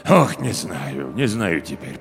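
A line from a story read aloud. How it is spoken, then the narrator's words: Muttering. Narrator (Russian): пробормотал управдом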